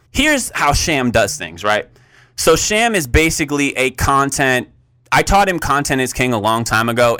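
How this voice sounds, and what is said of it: Agitated, fired-up voice. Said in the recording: “you can tell my voice is getting, I'm a little fired up right now”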